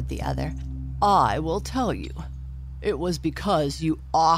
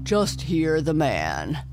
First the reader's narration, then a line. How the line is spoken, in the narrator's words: chuckled the fish